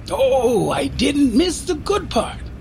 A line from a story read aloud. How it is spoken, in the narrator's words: exclaimed Michaela